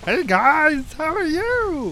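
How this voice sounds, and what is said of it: Creepy Bert character voice. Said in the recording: “doing a Bert voice ... Do you like my Bert voice? ... It's kind of creepy. ... it's very good. ... I'm going to use my real voice now.”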